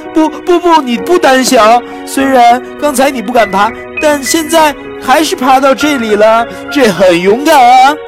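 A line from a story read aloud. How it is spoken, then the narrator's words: Tearful, whimpering. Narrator (Chinese): 我哭哭啼啼地说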